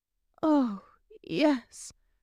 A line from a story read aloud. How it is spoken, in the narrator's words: she choked out